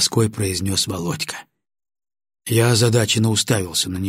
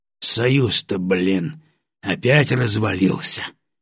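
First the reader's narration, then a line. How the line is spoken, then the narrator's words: Snorting grunt. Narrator (Russian): хмыкнул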